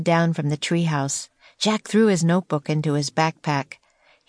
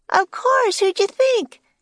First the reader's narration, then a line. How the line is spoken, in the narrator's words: shouted Annie